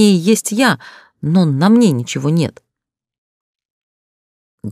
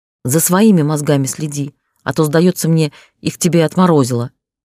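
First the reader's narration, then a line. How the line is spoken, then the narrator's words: Growling. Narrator (Russian): рыкнул я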